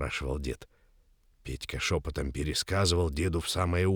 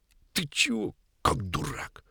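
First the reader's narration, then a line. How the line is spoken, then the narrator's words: Angry hiss. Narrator (Russian): Петька сердито шипел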